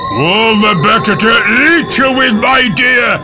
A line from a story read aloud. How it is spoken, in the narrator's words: roared Granny